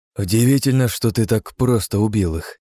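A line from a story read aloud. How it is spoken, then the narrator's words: Weary sigh. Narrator (Russian): устало выдохнул я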